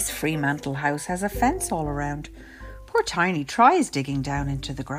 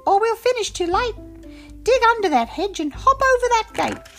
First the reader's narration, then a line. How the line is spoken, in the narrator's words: Marvin squeaks